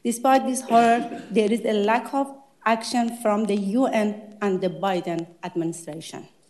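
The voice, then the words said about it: Non-native English accent. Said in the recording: “Sorry for my accent”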